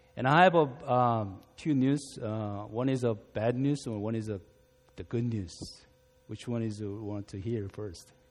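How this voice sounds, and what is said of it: Non-native English accent. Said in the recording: “my English has an accent. So that is a little bit bumpy.”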